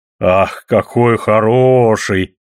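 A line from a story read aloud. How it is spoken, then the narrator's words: Deep-voiced cry. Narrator (Russian): басом вскрикнула Майога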